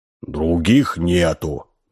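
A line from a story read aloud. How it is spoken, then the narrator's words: Gloomy guard. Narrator (Russian): мрачно ответил стражник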